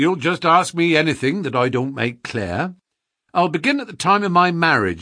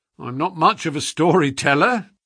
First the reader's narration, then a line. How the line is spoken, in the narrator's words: said our visitor, nervously